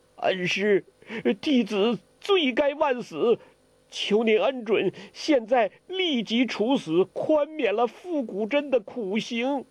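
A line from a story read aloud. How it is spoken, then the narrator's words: Trembling cry. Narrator (Chinese): 他颤声地叫道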